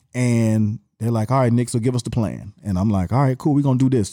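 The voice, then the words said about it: Slight Atlanta Southern accent. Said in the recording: “do I still have my Atlanta accent to y'all? ... A little bit.”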